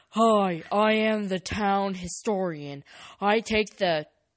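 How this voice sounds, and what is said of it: Deep character voice. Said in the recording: “With a deep voice.”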